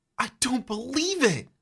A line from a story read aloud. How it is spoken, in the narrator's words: You gasp